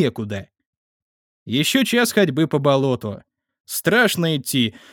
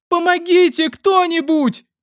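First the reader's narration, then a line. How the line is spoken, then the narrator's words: Screaming mixed with sobs. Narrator (Russian): Крики перемешивались с рыданиями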